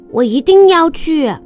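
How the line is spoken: Loud eager shout. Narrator (Chinese): 布鲁诺好想知道，他大声叫

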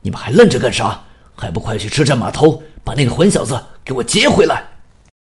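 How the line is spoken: Angry roar. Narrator (Chinese): 青山冲兄弟们吼道

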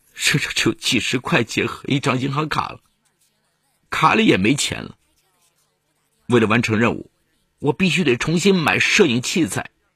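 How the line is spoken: Tearful reply. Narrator (Chinese): 全仁焕带着哭腔回答说

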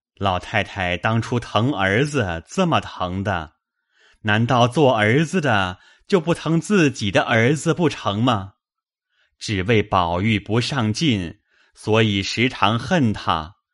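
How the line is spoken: Placating smile. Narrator (Chinese): 贾政陪笑说道

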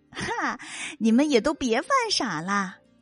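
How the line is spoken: Charming smile. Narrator (Chinese): 蝙蝠露出了迷人的微笑

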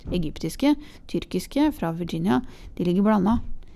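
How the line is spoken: Brusque. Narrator (Norwegian): sa bryskt

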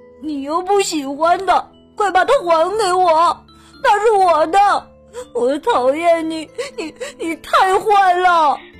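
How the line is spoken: Crying little boy. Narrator (Chinese): 小男孩哭了，不停的哭

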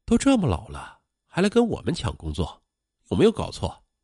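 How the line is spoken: Low, mocking voices. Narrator (Chinese): 同来应聘的几个年轻人低声笑他

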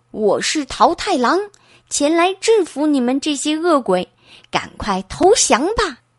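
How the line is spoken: Loud shout. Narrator (Chinese): 桃太郎大声喊道

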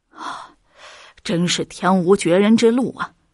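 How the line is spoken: Long sigh. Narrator (Chinese): 马师傅长叹一声

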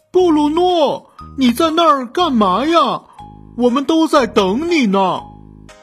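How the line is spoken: Shouting. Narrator (Chinese): 伦佐喊道

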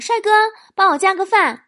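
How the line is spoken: Called out. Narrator (Chinese): 我叫了声

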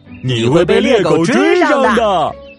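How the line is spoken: Mocking. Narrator (Chinese): 哥哥们还是取笑他

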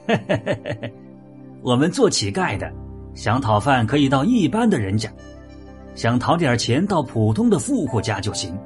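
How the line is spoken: Laughing beggar. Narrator (Chinese): 乞丐反而笑着说

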